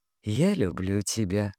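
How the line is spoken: Silent mouthed whisper. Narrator (Russian): одними губами прошептал он

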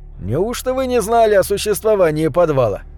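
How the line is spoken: Chuckling. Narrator (Russian): Я хохотнул

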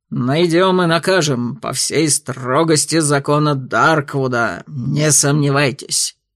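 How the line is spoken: Menacing growl. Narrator (Russian): грозно рыкнул Тервульф

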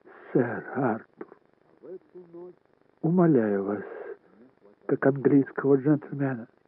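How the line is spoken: Quiet. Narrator (Russian): Шарлотта тихо произнесла

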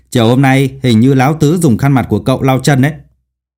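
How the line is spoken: Loud laughing boy. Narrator (Vietnamese): Nam sinh còn lại bỗng cười lớn

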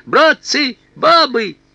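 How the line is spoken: High-pitched shout. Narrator (Russian): солдат тонким голосом крикнув

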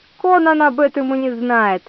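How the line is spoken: Laughing. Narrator (Russian): рассмеялся Тиберий

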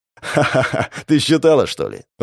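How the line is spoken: Laughing. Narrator (Russian): рассмеялся напалм

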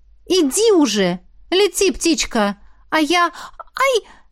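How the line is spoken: Exclaimed. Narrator (Russian): Воскликнула

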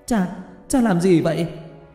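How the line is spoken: Shocked shout. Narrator (Vietnamese): Hứa Tiểu Lan hét lên

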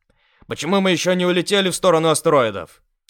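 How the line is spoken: Indignant question. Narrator (Russian): Возмущенно спросил я

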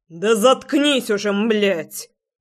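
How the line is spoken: Bark. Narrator (Russian): рявкнул я

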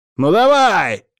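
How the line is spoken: Bark. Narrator (Russian): рявкнул

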